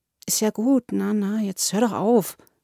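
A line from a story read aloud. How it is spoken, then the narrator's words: Murmured. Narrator (German): murmelte ich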